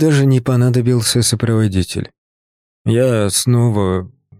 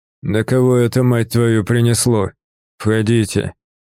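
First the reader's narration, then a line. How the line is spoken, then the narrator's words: Hoarse, smoky voice. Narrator (Russian): знакомый, хриплый, пропитанный дымом голос Севера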